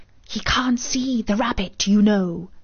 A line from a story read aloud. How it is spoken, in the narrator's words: And then she added with a loud stage whisper